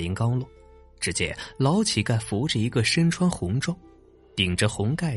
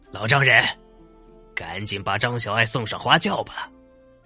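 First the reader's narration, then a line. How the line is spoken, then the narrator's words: Loud. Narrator (Chinese): 那封张飞大声说道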